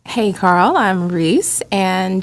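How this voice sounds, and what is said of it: Sexy, sultry voice. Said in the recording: “with a sexy voice.”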